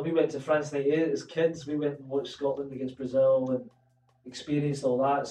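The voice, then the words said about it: Scottish accent. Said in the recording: “I spoke with a Scottish accent, living in England all my life”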